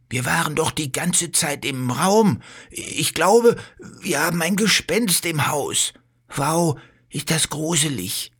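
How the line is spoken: Frightened. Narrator (German): sagt Bello und schaut sich ängstlich um

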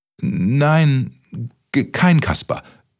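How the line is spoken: Stuttering. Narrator (German): stotterte Kaspermütze

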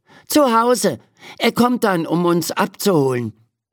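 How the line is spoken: Called out. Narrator (German): ruft Ferdi

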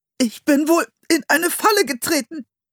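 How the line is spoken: Strained voice. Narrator (German): sagte er mit gepresster Stimme

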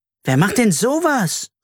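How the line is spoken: Indignant exclamation. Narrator (German): rief Carla empört

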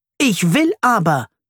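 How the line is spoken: Shouting. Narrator (German): schreit

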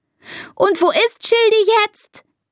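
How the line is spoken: Shouting. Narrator (German): schreit Elisa

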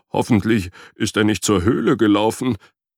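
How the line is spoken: Whining. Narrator (German): jammerte Frederik

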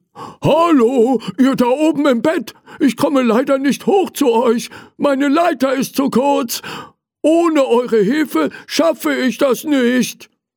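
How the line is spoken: Calling out. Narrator (German): Er rief

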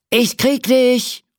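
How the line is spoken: Cowboy calling out. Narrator (German): ruft der Cowboy mit dem Lasso

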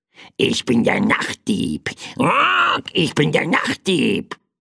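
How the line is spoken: Croaking little bird. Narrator (German): krächzte das kleine Federvieh

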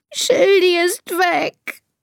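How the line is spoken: Sobbing. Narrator (German): schluchzt Elisa

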